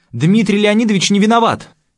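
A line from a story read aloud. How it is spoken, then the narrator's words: Echoing shout. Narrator (Russian): выкрикнула она, и эхо разнесло эту весть под сводами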